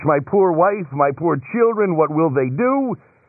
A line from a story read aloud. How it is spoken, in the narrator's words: Hearing the news, he cried in anguish